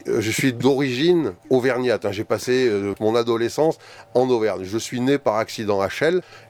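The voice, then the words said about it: Slight southern French accent. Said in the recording (French): “vu l'accent que vous avez... Il fait un peu sud quand même”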